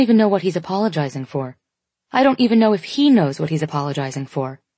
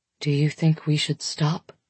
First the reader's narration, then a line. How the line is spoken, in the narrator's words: he asks quietly